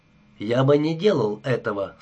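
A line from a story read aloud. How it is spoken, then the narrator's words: Calm. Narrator (Russian): спокойно произнес Адамс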